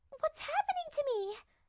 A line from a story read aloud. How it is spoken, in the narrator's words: Peach stammered